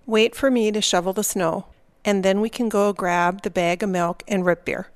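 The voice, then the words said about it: Subtle Minnesota accent. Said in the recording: “she's doing all those things we heard in the Fargo clip, but they're more subtle ... that accent is the same. It's just a cartoony version”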